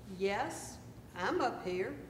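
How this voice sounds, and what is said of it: Deep voice. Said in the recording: “A deep voice replied”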